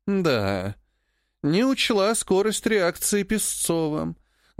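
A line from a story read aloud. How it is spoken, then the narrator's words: Sad admission. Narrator (Russian): грустно признала Живетьева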